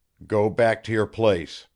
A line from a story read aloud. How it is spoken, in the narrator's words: said sternly